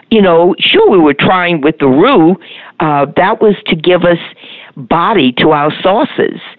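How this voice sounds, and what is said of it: New Orleans accent. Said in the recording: “my New Orleans accent”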